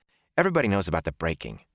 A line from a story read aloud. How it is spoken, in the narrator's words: Matt said impatiently